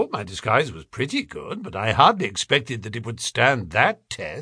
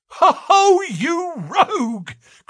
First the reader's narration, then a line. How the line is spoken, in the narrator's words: cried Jones, highly delighted